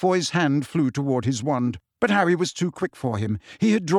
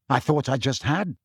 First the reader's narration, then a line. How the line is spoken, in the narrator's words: said Harry